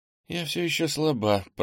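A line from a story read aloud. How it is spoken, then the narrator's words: Weak mutter. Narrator (Russian): пробормотала Ира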